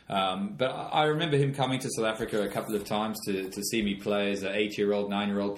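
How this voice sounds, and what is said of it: Slight South African accent. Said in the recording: “I grew up in South Africa. You can tell from the sort of strange twang that I've got. I haven't managed to get rid of that completely.”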